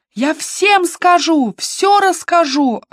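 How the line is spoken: Yelling. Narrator (Russian): орала Сидни

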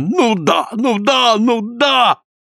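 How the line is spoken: Continued yelling. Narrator (Russian): продолжает вопить Наня Папа

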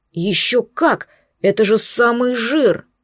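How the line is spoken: Excited exclamation. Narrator (Russian): Алан аж подпрыгнул на кресле, воскликнув

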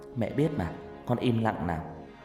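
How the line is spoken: Soft, smiling. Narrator (Vietnamese): Hằng chỉ mỉm cười khẽ nói

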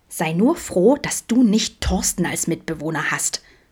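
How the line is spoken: Disdainful whisper. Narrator (German): flüsterte Milan abschätzig

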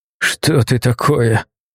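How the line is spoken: Choking wheeze. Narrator (Russian): Задыхаясь в постепенно сжимающемся коконе, прохрипел владеющий

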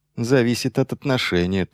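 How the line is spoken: Quiet reply. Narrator (Russian): тоже тихо ответил Майлз

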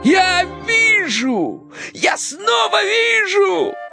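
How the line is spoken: Joyful shout. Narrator (Russian): радостно закричал Кощей Бессмертный

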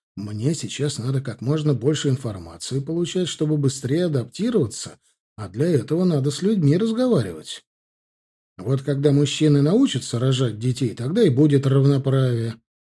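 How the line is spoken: Plain. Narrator (Russian): ответил я бабушке

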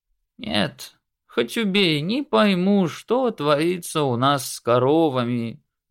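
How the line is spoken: Dejected milkmaid. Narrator (Russian): уныло сказала коровница Мари

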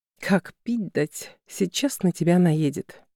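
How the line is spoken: Anxious whisper in ear. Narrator (Russian): Встревоженно шепнула на ухо Алена

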